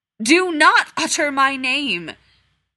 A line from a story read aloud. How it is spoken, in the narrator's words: the Dark Lord boomed